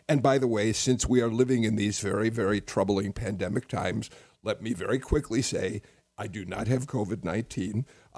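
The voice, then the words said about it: Weak, hoarse voice. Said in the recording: “my voice is a little weak. I've developed a chest cold, and so I'm a bit hoarse”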